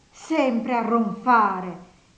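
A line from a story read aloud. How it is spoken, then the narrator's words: Disgusted exclamation. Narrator (Italian): esclamò guardandolo con disgusto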